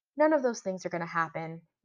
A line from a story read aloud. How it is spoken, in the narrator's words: Zan said so calmly that it was maddening